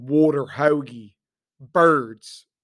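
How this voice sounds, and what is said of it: Put-on Philadelphia accent. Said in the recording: “the stupid Philly accent. His is better than mine. ... It's not terrible. I've heard worse.”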